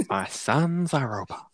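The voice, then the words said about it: Proud scientist character voice. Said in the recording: “imagining the character as a proud scientist ... It's a really good impression.”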